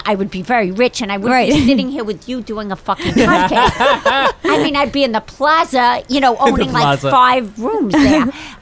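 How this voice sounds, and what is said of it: Thick Long Island New York accent. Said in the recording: “You are so New York. You got like the whole like kind of, I don't know what kind of accent that is ... that's my accent. And it really is from Long Island ... Mine is pretty thick”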